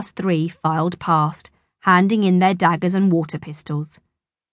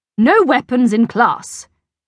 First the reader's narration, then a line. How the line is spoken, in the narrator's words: snapped Miss Boot